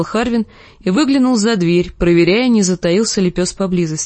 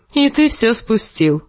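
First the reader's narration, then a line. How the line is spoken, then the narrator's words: Laughing. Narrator (Russian): засмеялся Харвин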